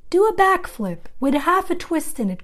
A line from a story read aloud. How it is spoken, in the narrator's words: cried Charlotte